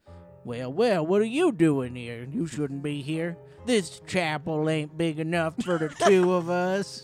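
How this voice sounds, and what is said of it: Put-on drawling accent. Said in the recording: “everybody here has a drawl.”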